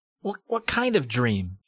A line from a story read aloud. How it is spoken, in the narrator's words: Sherry asked impatiently